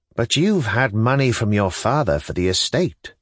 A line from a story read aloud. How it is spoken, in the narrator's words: Stavrogin observed calmly